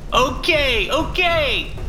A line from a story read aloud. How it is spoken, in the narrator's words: He screams